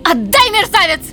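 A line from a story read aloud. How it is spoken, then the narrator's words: Screaming outburst. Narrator (Russian): завопила она, обретя наконец утерянный дар речи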